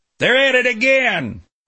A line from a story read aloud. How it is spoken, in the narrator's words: I heard him yell